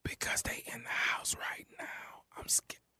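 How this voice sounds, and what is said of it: Whispering. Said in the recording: “why the hell you whispering?”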